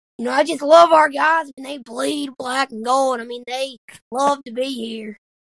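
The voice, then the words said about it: Imitates another person's voice. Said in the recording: “your Will Hall impersonation”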